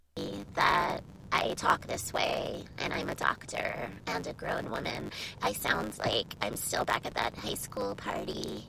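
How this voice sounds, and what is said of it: Baby-like voice with vocal fry. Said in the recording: “I just have this kind of a voice, like a baby ... I speak with vocal fry”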